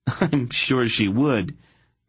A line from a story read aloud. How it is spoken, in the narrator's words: Garion sighed